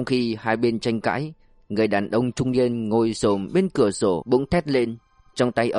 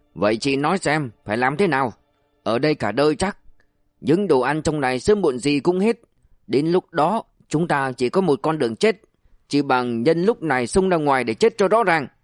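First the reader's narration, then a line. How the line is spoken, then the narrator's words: Man's roar. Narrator (Vietnamese): Người đàn ông râu sồm gầm lên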